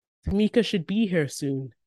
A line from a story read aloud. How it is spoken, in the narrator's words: Daddy says